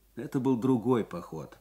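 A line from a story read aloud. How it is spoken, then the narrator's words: Gloomy explanation. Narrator (Russian): мрачно пояснил лейтенант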